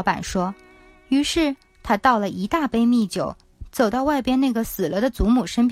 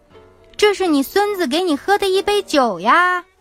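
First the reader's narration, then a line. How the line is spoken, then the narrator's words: Shouting again. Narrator (Chinese): 他又把这话喊了一遍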